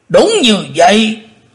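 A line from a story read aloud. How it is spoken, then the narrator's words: Thunderous roaring reply. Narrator (Vietnamese): Tử Diện Côn Luân đáp như trời gầm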